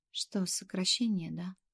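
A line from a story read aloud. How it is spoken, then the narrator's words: Glum question. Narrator (Russian): Уныло поинтересовалась я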